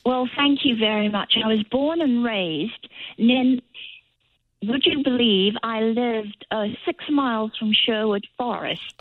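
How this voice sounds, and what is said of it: British English accent. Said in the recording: “where in the UK are you from? You have a beautiful accent.”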